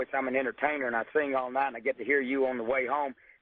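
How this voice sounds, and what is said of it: Rough, strained hoarse voice. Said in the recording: “excuse my voice. ... My throat's a bad shot now. That's why my throat is so rough.”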